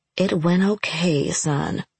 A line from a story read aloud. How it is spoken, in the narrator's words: I said quietly